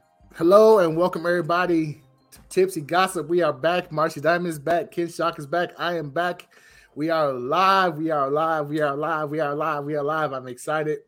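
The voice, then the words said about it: Voice affected by a cold. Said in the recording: “Excuse my voice. I'm still getting over a cold.”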